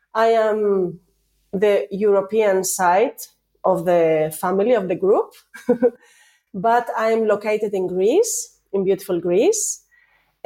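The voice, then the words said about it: Spanish accent, voice congested from cold. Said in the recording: “I have a cold. So now with my Spanish accent and my cold”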